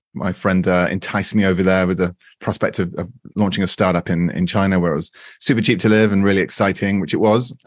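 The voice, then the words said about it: British accent. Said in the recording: “I'm from the UK, as you can probably tell from my voice.”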